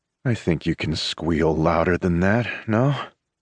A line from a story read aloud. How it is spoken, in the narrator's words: He purrs, his voice dipping impossibly deeper